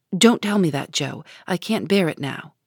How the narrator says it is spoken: He started as if he had been shot, threw up his head and cried out in a fierce tone

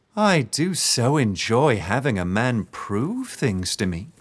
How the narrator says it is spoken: she said, her voice sickly sweet

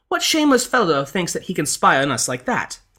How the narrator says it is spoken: the lady cried out

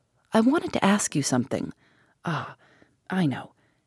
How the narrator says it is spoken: She was fast falling into her old horror, but rousing herself, murmured

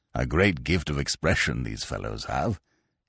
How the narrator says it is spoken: he chuckled

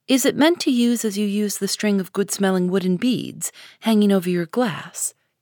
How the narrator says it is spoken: asked Amy

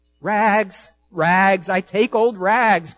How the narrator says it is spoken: cried the sobbing, bleeding, strong, intelligent ragman

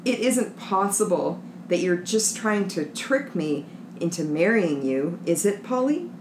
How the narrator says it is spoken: He said, trying to keep his voice from shaking

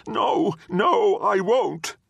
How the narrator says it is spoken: Tictus whimpered, saying

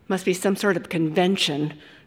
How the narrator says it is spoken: Ricky said uneasily

